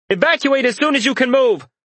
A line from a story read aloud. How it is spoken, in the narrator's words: yelled